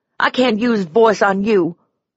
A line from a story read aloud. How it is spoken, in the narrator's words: I cried